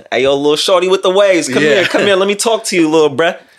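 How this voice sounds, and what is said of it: Poor put-on New York accent. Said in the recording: “my New York accent was horrible”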